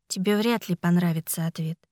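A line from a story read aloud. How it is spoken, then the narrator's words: Quiet. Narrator (Russian): тихо ответила я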